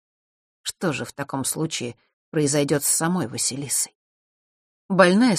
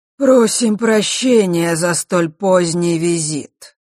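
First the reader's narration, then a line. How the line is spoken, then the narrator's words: Harsh guttural voice. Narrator (Russian): резким гортанным голосом произнес дух Осталы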